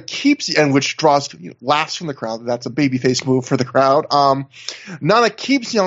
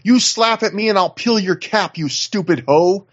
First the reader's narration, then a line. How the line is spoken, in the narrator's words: He screams at her